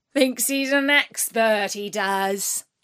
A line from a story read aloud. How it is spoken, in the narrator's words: jeered